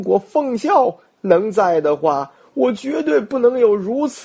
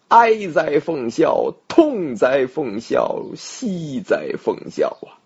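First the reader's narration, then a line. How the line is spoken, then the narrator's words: Mournful lament. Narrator (Chinese): 曹操如此感叹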